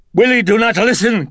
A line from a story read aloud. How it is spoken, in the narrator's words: cried Carl